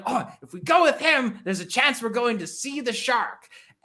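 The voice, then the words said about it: Put-on British accent, infomercial style. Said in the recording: “Your accent for the British guy reminds me of like the infomercial guy”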